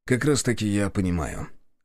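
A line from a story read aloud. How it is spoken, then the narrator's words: Calm objection. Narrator (Russian): спокойно возразил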